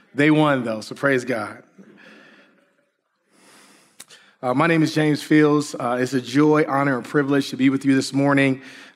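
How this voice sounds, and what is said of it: Strained, sore-throated voice. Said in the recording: “I promise you that I feel better than my voice sounds. ... Just having some throat pains ... I think I was yelling a little too much”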